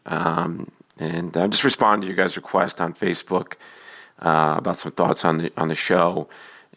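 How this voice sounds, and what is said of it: Slightly hoarse voice. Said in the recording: “I'm a little hoarse ... forgive me for my voice”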